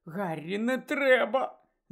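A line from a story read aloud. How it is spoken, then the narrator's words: Moaning. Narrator (Ukrainian): застогнала Герміона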